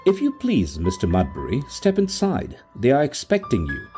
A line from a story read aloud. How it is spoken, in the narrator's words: said a kindly, pompous voice